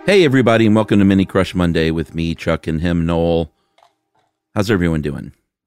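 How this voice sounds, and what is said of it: Sleepy-sounding voice. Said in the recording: “My voice sounds funny this morning. I have like a sleepy voice ... Why do you sound sleepy? ... I noticed I sounded extra”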